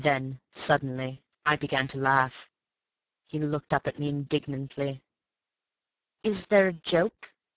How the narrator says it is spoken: He said coldly

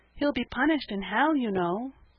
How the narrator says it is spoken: said Peter timidly

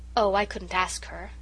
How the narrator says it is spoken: sighed Irene

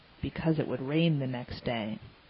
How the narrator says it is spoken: gravely answered

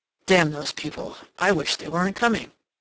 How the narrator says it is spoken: Ralph exclaimed

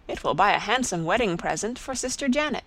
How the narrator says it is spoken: she exclaimed

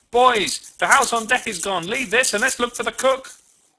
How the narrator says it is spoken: Suddenly it dawned upon me, and I shouted

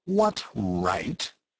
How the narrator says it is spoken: he added in an aggrieved tone

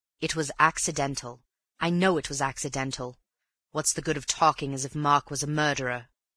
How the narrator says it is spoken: He broke off, and then added impatiently

